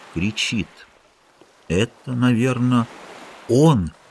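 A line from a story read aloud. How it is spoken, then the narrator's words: Quiet. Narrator (Russian): тихо сказал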